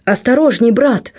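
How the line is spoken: Exclamation. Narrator (Russian): воскликнул

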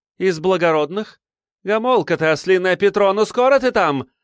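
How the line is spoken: Sharp, impatient yell. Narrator (Russian): резко заорала, не дождавшись ответа

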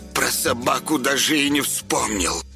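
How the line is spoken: Angry hiss. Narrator (Russian): Гневно прошипела она

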